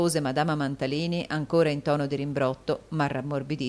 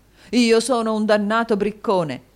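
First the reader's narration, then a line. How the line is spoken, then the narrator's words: Exclaimed. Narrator (Italian): esclamò il signor Mantalini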